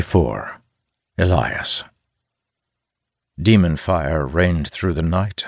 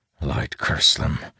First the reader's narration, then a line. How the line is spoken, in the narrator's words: he mutters